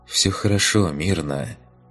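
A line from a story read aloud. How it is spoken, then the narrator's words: Soft soothing whisper. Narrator (Russian): тихо прошептал он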